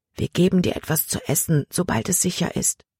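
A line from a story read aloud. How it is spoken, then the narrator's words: Whispering. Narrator (German): flüsterte Samuel ihm zu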